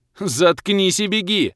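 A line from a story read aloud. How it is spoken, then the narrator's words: Barking shout. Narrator (Russian): рявкнул я в ответ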